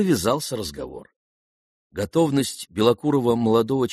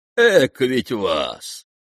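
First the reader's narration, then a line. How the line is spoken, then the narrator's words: Whistling, loud laughter. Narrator (Russian): черноволосый присвистнул и захохотал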